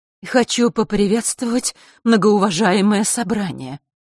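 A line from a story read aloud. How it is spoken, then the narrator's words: Trembling voice. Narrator (Russian): начала часовщица задрожавшим голосом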